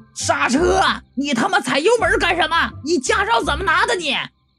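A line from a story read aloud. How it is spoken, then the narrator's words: Angry, frightened shout. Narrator (Chinese): 小年轻啊，是又气又怕，高声就喊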